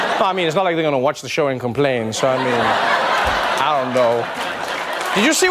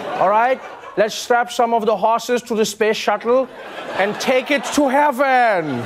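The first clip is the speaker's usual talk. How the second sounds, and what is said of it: Put-on Amish accent. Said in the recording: “I don't even know if that was a good or bad Amish accent.”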